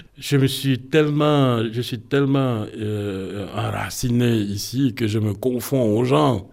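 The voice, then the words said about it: Foreign accent in French. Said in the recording (French): “je ne me vois pas comme étranger quand j'enseigne. C'est seulement quand j'écoute ma voix ... l'accent? ... De l'accent, exactement. C'est quelque chose de nouveau pour eux.”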